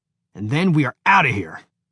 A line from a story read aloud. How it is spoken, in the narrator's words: Horowitz said to himself with a grunt